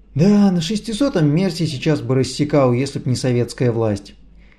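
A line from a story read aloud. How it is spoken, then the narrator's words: Sighing with nostalgic longing. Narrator (Russian): Тележкин вздохнул с белогвардейской тоской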